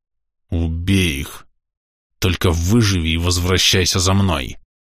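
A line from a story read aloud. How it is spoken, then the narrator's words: Hiss through clenched teeth. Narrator (Russian): Темный не говорил, а шипел сквозь стиснутые зубы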